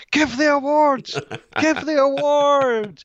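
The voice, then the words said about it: Yelling. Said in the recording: “I'm yelling at my phone”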